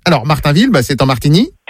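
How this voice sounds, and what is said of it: Puts on a police officer's voice. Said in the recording (French): “faire la voix du gendarme”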